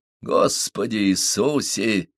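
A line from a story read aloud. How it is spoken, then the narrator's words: Creaky drawl. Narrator (Russian): протянул скрипучим голосом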